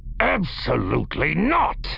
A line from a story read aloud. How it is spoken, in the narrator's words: Barkeef growled